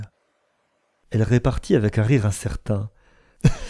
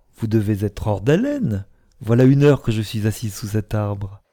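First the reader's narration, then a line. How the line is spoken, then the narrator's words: Cheerful reply. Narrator (French): Elle répondit gaiement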